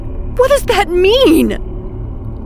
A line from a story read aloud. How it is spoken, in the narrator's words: I shouted